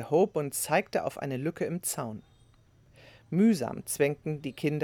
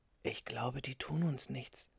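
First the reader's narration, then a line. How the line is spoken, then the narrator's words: Whispering. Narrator (German): flüsterte er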